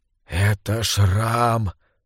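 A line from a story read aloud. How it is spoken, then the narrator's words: Whispered in ear. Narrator (Russian): прошептал Флорин на ухо Беллис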